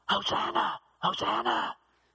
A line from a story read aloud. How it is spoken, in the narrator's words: They're whispering